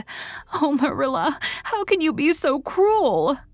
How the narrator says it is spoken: Anne sobbed

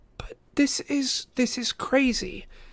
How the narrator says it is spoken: Annabeth cried

